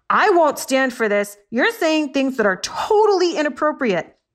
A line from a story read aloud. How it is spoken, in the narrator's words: The orangutan yelled